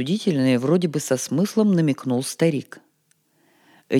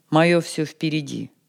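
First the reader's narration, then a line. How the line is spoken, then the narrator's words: Calm reply. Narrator (Russian): Но он спокойно ответил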